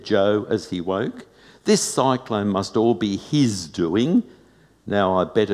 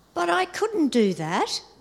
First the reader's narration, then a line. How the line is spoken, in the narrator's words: exclaimed Captain Matt